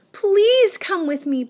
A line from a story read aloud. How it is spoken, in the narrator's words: begged Wilbur